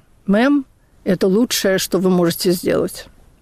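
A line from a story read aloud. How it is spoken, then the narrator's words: Tired. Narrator (Russian): оператор сказал устало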